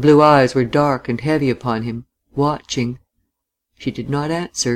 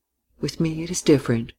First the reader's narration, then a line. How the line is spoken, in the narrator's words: she said quietly